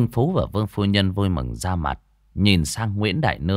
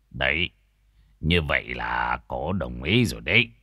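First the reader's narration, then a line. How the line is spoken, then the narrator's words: Smiling. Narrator (Vietnamese): ông thầy tứ mới mỉm cười nói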